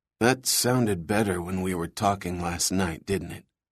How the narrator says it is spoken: Mark whispered to Eric

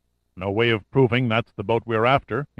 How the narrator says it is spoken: said flatly

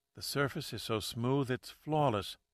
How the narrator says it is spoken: Pat said softly

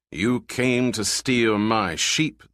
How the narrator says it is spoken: the giant thundered

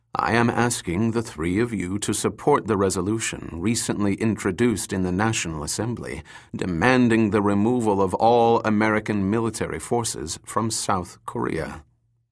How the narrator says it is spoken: Kang continued calmly

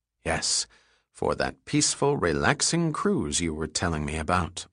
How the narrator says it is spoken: Lauren muttered

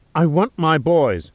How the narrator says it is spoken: snapped

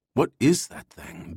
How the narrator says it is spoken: Ben whispered

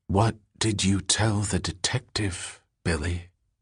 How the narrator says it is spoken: whispered

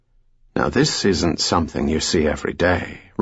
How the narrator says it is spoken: Remy murmured

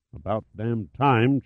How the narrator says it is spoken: Chase mumbled to himself

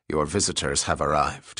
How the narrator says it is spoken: said in a coarse voice

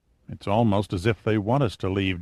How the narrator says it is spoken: Jordino mumbled

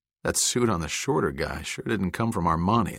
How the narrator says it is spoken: Logan said with a chuckle

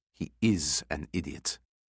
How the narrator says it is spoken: she muttered

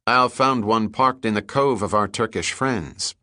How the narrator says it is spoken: Pitt said

